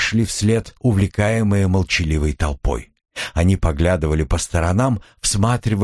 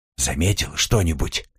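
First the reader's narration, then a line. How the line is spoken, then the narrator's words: Whispered in ear. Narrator (Russian): прошептал Николя на ухо Одри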